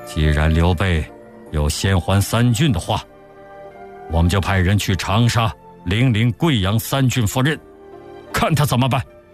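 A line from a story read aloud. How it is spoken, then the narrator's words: Sighing. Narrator (Chinese): 孙权一声叹息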